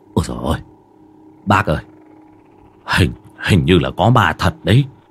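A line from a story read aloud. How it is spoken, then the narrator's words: Frightened stammering. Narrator (Vietnamese): ông tài xế mặt trắng bệnh bạch, quay lại lắp bắp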